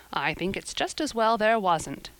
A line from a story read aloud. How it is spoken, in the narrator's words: said Marilla dryly